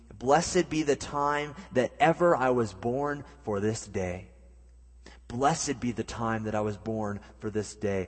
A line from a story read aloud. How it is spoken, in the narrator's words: John Noyce exclaimed